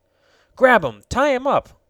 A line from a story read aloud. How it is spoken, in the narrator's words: cried Tom